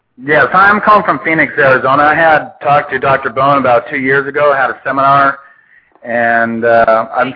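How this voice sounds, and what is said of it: Speaking too loudly. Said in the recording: “Could you lower your voice just a touch?”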